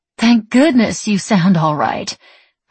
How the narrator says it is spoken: her mother said grimly

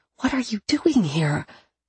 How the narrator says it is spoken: I whisper

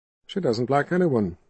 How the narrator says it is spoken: Rawl said flatly

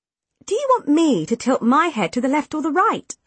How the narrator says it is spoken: I asked impatiently

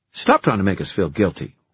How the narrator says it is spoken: Samantha snapped

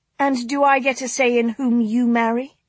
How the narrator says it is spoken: Anne snapped

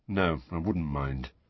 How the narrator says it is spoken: Harry mumbled

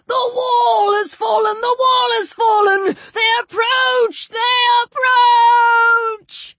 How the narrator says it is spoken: A living man, his hair and clothing in flames, crying out at the top of his voice

